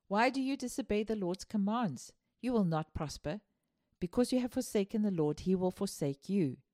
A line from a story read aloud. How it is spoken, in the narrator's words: With fire and sorrow, he stood in the Lord's courtyard and cried out